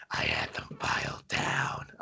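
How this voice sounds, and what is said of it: Bad demonic-sounding character voice. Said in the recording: “a really terrible impression ... don't ever do that voice ever again. Like, I thought a demon just came through my headphones.”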